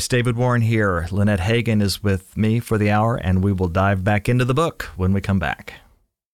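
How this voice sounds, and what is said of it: Announcer-style radio voice. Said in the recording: “my best radio voice”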